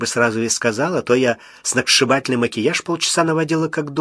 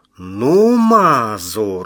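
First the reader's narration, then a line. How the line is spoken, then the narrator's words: Indignant yell. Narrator (Russian): возмущенно завопила она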